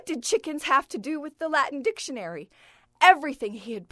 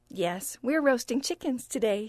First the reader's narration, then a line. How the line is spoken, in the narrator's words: said, smiling sweetly